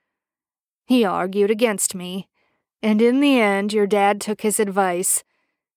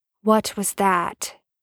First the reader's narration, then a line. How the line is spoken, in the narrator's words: Sam asked in a low voice